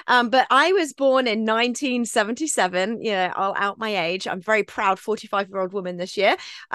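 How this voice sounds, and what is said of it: British accent. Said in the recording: “people hear my voice and they think, oh, there's a British person ... I just happen to sound British.”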